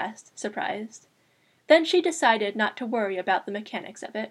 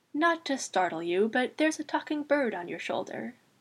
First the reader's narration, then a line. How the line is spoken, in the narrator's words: Susan said sleepily